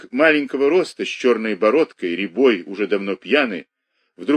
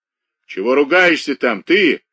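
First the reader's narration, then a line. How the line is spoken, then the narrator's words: Angry call from afar. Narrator (Russian): отозвался сердито Семен, сидевший далеко в стороне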